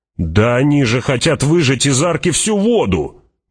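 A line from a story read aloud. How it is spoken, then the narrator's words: Indignant shout. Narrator (Russian): возмущенно крикнул человек с лучеметом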